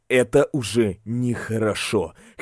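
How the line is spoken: Quiet. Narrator (Russian): Лю Юньян тихо произнес

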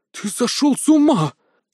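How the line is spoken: Mage exclaiming. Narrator (Russian): воскликнул маг

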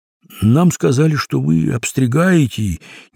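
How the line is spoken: Uncertain explanation. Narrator (Russian): неуверенно пояснил Крендель

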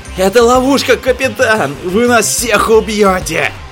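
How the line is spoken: Hysterical yelling. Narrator (Russian): истерично вопил Хоббс

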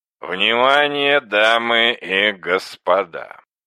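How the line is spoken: Mock-drunken joking voice. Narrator (Russian): Наигранно нетрезвым голосом, шутки ради, начал говорить Борис

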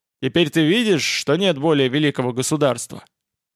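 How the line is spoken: Irritated question. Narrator (Russian): Владимир спросил раздраженно

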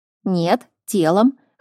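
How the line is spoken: Wry snort. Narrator (Russian): хмыкнул Мур

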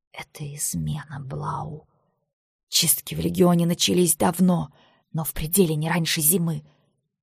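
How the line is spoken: Hurried whisper, swallowing words. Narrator (Russian): она шептала торопливо, глотая слова

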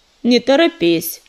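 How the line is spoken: Cold, curt. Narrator (Russian): холодно отрезал Ежевика

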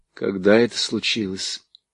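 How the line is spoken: Muffled question. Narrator (Russian): глухо спросила

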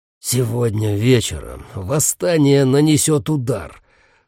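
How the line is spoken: Grim growl. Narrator (Russian): с мрачным видом прорычал Дев

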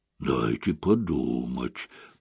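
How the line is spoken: Mutter. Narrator (Russian): пробормотал Айшем

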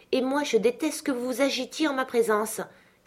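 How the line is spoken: Imperious exclamation. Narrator (French): s'écria la jeune fille d'un ton impérieux

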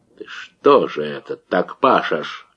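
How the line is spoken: Quiet question. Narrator (Russian): тихо спросил Давыдов

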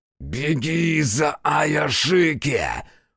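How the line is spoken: Growl in a strange voice. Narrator (Russian): прорычал незнакомый голос глоткой Хитсу

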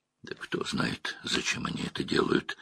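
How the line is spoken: Mutter. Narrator (Russian): пробормотал Мэтт

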